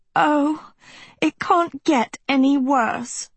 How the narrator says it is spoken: Sophie moaned

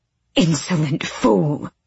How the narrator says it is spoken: the matron hissed

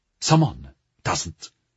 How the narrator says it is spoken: she said sharply

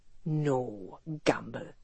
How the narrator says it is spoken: he said, his voice pure acid

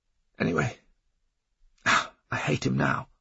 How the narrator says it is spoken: says in a croaky voice

